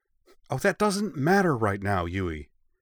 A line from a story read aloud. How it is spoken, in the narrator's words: Ritsu snapped